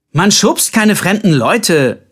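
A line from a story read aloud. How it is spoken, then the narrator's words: Calling after someone. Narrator (German): rief Colbert ihm hinterher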